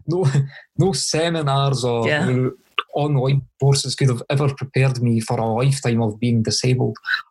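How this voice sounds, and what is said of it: Thick Scottish accent. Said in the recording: “your accent, your Scottish accent is pretty thick.”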